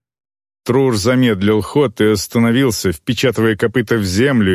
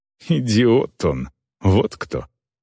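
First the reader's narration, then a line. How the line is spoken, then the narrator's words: Snorted. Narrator (Russian): Орка фыркнула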